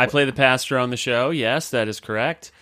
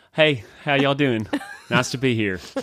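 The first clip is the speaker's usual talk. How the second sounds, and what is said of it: Put-on Southern twang accent. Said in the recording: “I speak with a southern accent in that... Show us the twang.”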